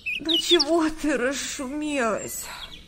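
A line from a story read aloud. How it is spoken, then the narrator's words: Grumbled. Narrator (Russian): проворчала Света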